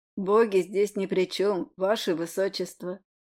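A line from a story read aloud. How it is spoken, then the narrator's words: Slightly husky voice. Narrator (Russian): С легкой хрипотцой произнес Скайзминт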